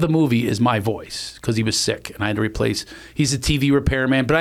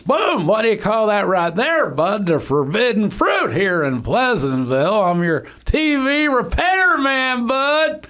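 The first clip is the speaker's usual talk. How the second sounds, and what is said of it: Impression of an old man's voice. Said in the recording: “I do an impression of Don Knotts ... I had to do him as an old guy”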